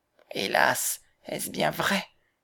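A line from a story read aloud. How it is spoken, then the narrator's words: Sighing grandmother. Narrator (French): soupira la grand-mère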